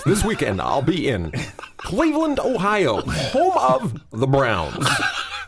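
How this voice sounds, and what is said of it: Put-on Americanized radio announcer voice. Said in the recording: “Is that your perfect Americanized? ... That's my perfect Americanized radio voice ... You sound like a male voice on like a app for traveling.”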